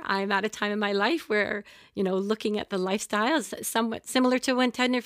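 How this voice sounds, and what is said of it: Teary, emotional voice. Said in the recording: “I'll get a bit teary as I'm saying it”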